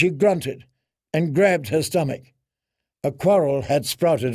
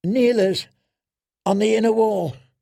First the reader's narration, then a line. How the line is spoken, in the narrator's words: she gasped